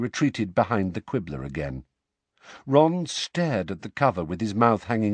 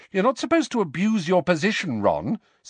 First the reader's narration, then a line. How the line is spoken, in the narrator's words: said Hermione sharply